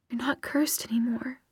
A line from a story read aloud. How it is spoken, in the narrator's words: she whispered